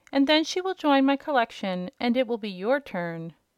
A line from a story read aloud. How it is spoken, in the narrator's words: said the King cheerfully